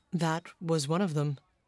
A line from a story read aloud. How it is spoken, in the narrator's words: said the doctor quietly